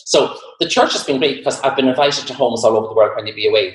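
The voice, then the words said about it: Irish accent. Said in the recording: “I do have an Irish accent ... they love my Irish ... we love your accent”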